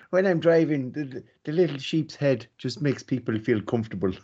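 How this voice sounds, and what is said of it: Poorly done put-on Irish accent. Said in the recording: “I'm probably going to murder the Irish accent now”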